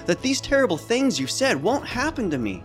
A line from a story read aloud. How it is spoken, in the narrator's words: Simon exclaimed